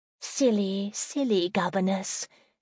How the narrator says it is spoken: she said softly

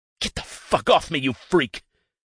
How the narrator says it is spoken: hisses with clenched teeth

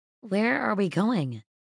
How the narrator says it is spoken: she asked hesitantly

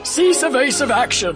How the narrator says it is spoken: shouted Captain Onima, A salmon-colored Calamarian officer

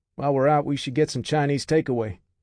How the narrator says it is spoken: the MP said, chuckling

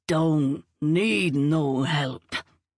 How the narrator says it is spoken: he slurred, his eyes narrowing

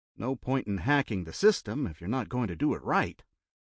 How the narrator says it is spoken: Jeff muttered with a grim smile

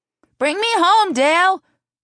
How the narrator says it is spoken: shouted, clapping enthusiastically

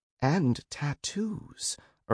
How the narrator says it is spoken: Irma whispered, mesmerized

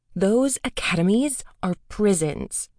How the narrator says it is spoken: Moa snapped

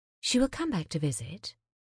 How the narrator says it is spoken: Gillian said gently

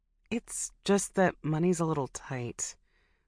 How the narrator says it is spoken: I murmur

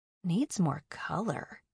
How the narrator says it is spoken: murmured

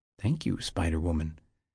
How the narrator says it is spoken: he said quietly, rising unsteadily

